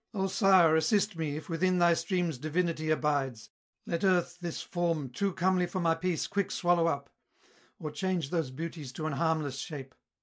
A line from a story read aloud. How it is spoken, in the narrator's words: Pale with dread, her strength exhausted in the lengthened flight, loud exclaimed